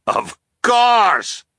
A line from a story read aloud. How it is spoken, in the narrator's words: the captain cried